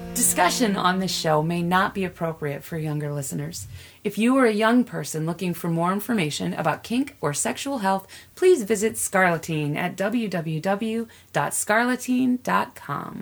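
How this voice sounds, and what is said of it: Sultry, sexy put-on voice. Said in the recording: “I love when you put on your Mrs. Sexy voice.”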